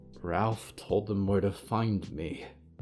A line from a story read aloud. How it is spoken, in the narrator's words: Valerie muttered to herself